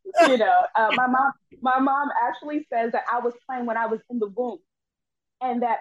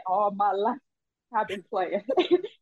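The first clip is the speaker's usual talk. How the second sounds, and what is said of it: Imitated film character voice. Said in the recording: “in my Color Purple voice,”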